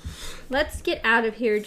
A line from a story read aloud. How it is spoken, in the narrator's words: Jake said in a trembling voice